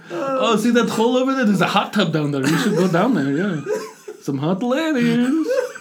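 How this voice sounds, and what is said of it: Stereotypical Russian accent. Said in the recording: “your little accent is Gru... From Despicable Me... His is a little higher, though... It's the same accent, though... It's the stereotypical Russian accent.”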